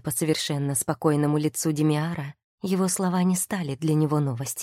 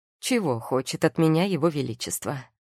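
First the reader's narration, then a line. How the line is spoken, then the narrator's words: Mocking question. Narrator (Russian): насмешливо спросил он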